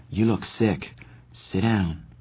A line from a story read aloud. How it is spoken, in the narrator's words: Soda said softly, like he was talking to an injured animal